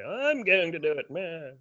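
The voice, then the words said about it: Poor imitation of Janeway. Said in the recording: “That's a terrible accent.”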